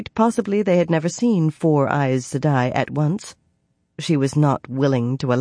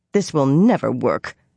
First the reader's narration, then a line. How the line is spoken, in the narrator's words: Nynaeve grumbled, for perhaps the 10th time